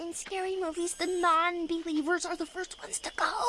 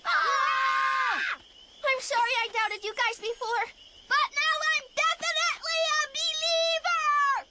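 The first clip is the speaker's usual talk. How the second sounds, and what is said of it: Yelling. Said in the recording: “Why are you yelling?”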